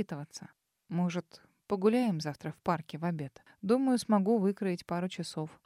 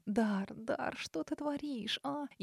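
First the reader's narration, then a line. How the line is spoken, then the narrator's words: Deep, slightly hoarse voice. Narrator (Russian): за спиной раздался глубокий, чуть хриплый голос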